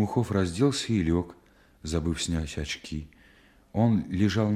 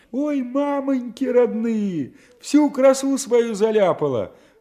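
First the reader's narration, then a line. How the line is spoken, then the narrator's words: Shrieking. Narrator (Russian): взвизгивал кто-то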